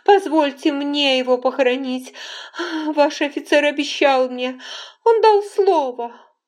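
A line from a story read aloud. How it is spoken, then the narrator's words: Pleading through sobs. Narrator (Russian): она сквозь рыдания попросила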